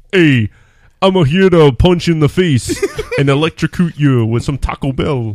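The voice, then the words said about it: Imitates another person's voice. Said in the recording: “my Sly impression”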